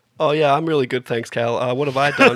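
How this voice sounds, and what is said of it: Husky voice, nearly lost. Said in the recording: “I was actually sick over the weekend, so you'll hear a little bit of a husky, like a sexy husky ... thing ... almost losing my voice”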